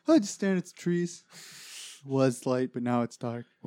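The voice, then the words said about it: Imitation of a co-host's voice. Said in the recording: “This is my Greg impression, by the way, so I don't think it's really spot on.”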